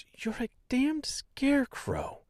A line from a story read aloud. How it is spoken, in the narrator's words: muttering the words